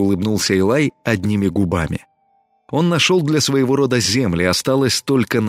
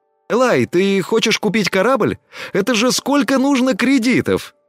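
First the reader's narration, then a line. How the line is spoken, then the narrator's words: Surprised exclamation. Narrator (Russian): удивленно воскликнул Тина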